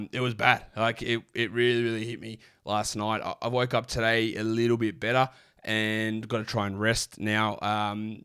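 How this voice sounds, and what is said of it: Croaky, low-energy sick voice. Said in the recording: “maybe I'm a bit low energy, why my voice is a little bit croaky”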